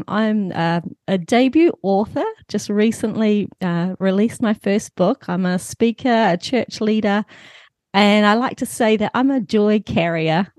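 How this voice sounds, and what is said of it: New Zealand accent. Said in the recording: “you can hear I have an accent. I'm all the way over in the North Island of New Zealand”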